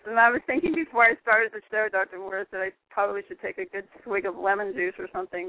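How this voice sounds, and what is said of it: Slightly raspy voice. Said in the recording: “My voice is just a little raspy because I've been talking too much today.”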